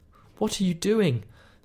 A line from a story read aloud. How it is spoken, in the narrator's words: Sarah asked urgently